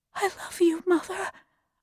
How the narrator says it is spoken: whispered

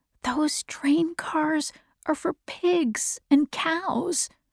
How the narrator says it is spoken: whispered Jonas

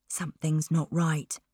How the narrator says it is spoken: he whispered to Donna

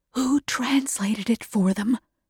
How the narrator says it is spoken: whispered Mother

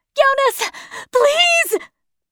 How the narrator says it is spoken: I screamed

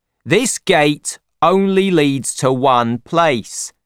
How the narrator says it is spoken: shouts Ron

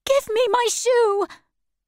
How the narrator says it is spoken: shouted Dorothy

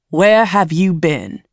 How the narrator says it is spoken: he asks her, angrily

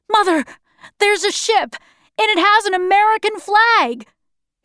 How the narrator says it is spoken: he shouted

